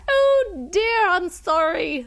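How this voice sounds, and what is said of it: Put-on accent. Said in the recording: “That's my accent.”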